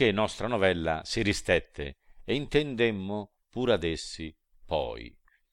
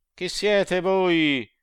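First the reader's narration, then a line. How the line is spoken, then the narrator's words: Shouted by three spirits. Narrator (Italian): tre spiriti, se non quando gridar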